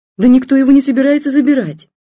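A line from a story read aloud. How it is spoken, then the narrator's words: Wife shouting. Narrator (Russian): кричала жена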